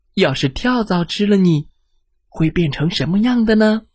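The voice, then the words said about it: Quiet, soft-spoken question. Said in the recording (Chinese): “小声的问”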